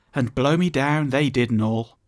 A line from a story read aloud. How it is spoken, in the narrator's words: pleaded